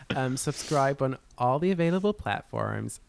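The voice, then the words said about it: Put-on Midwest American accent. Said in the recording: “that was a Midwest accent on the platforms.”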